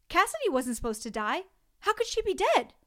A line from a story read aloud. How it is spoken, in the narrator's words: blurted out